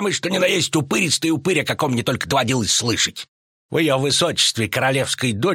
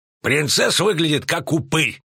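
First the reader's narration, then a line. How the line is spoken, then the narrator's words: Barking. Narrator (Russian): рявкнул Велерат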